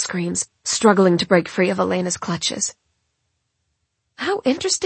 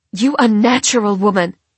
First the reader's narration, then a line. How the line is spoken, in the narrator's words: Mom shouts